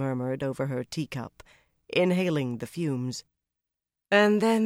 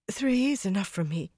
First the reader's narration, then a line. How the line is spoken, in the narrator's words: she said breathlessly